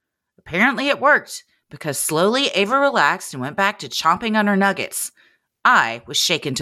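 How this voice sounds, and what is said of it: Usual voice. Nothing is said of it.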